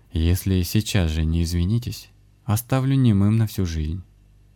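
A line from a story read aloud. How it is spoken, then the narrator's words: Calm. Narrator (Russian): спокойно проговорил Александр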